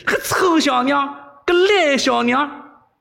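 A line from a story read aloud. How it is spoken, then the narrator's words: Furious inner cursing. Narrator (Chinese): 韦小宝大怒啊，心中不止骂了几十句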